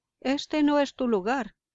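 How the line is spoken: Lively exclamation. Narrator (Spanish): exclamó Urutú Dorado, dando por primera vez señales de vivacidad

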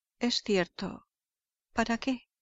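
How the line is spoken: Murmuring. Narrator (Spanish): murmuró Holmes

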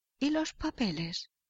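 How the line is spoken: King asking hoarsely. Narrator (Spanish): preguntó el rey con voz ronca

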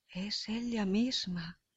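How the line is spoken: Murmured. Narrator (Spanish): murmura Leontes

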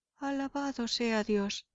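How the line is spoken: Exclamation. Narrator (Spanish): exclamó

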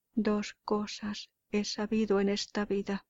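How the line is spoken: Solemn voice. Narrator (Spanish): dijo con voz solemne

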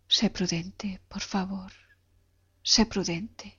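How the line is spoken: Whispering. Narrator (Spanish): me susurró

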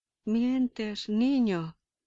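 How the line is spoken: Fierce father exclaiming. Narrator (Spanish): exclamó con fiereza el padre

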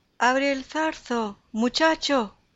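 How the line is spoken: Shepherd shouting. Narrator (Spanish): gritó el pastor

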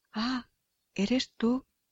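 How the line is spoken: Young man's startled recognition. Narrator (Spanish): exclamó nuestro joven, reconociendo a la muerte

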